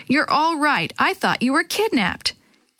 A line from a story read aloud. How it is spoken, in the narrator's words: Dee Dee exclaimed